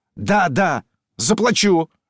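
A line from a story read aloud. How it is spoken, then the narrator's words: Thunderous sudden shout. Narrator (Russian): громовым голосом крикнул Филипп, как бы вдруг очнувшись от раздумья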